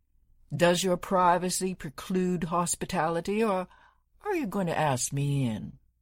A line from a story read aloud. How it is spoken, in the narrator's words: She sighed